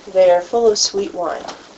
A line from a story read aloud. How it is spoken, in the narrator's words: others were mocking and saying